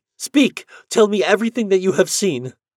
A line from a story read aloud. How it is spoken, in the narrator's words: exclaimed Natalie